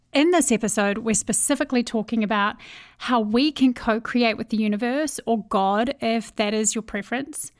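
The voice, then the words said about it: New Zealand accent. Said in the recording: “I have a Kiwi accent. ... I'm from New Zealand. But everyone thinks I'm from Australia when they hear me speak”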